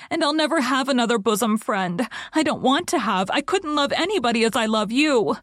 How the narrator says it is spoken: sobbed Diana

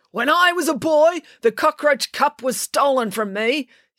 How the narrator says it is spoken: yelled Coach Voss, his voice full of emotion

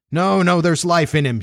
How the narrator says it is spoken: shouted another

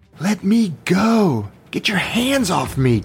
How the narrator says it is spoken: Candy screamed at Big Head

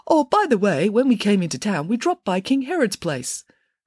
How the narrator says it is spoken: the third king piped up and said

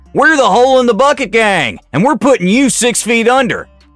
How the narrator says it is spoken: as a group they shouted

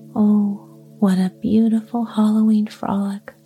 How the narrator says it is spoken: sighed Babette

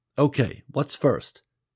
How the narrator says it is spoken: she said

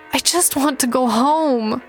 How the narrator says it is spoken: I sobbed

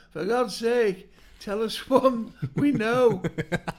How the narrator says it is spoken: somebody just shouted

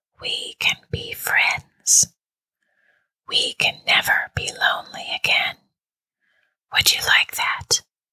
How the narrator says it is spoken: the whisper asked

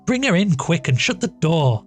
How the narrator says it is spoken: Maria called out

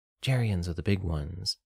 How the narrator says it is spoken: Aya whispered

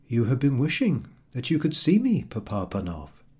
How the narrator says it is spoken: he said kindly

